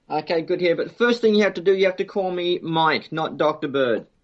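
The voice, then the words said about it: Australian accent. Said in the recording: “I love your accent ... that's the accent of heaven”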